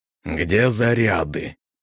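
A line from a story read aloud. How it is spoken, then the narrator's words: Displeased creaky demon voice. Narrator (Russian): Недовольно проскрипел демон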